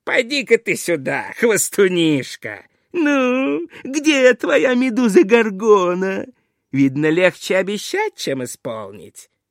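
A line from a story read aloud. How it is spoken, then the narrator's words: Laughing shout. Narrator (Russian): царь засмеялся и крикнул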